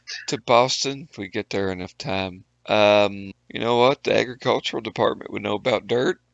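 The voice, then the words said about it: Rural hillbilly accent. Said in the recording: “they hear my hillbilly ass ... Everyone likes your accent”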